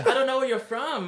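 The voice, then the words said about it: Imitates another person's voice. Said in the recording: “I don't know why I gave her that accent. ... Yeah, that's what she sounded like.”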